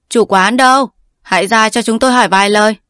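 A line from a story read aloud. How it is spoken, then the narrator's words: Loud call. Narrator (Vietnamese): Hùng Chi lớn tiếng gọi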